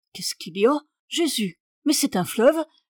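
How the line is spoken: Exclamation. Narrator (French): s'écria la baronne

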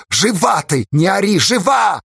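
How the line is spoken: Barking. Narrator (Russian): рявкнул Асташа

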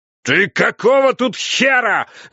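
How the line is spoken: Yelled over protests. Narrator (Russian): заорал он, перекрывая мои протесты

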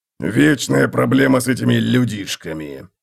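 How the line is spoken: Grumbling mutter. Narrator (Russian): пробурчал Готрек

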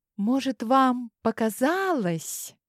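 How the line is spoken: Sugary, unctuous voice. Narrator (Russian): елейным голосом начала я

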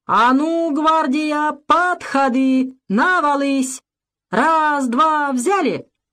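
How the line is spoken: Confident rallying voice. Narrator (Russian): этим уверенным голосом

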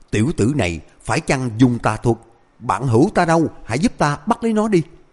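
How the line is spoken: Angry loud shout. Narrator (Vietnamese): Hà Chấn Diễn tức giận hét lớn

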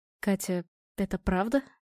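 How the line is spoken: Quiet question. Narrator (Russian): тихо спросил Володя

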